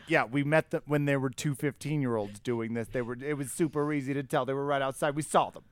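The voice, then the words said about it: Put-on Brooklyn accent. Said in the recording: “I like your Brooklyn Jew accent ... Just a Brooklyn accent ... I think that's just a Brooklyn accent. This is more Staten Island, actually.”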